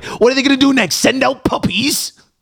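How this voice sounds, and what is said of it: Poor put-on Welsh accent. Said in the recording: “That was a terrible accent. ... That was an awful, I'm half Welsh as well. It was an awful Welsh accent.”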